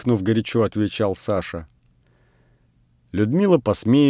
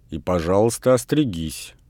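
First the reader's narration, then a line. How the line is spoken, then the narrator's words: Stern speech. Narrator (Russian): строго сказала Людмила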